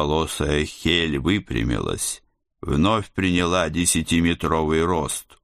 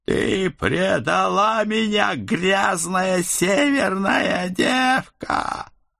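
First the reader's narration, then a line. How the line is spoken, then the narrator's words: Hysterical howl from behind. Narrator (Russian): Истерично взвыл кто-то за нашими спинами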